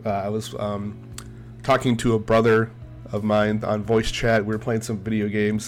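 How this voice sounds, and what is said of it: Congested head-cold voice. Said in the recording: “I sound very different, it's because I have a cold. ... I've had a very bad head cold ... I don't sound like myself ... I sound like an entirely different person”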